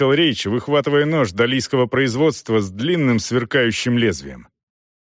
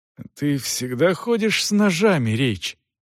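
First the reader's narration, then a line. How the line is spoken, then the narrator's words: Hoarse breathing. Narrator (Russian): хрипло дыша проговорил Селдон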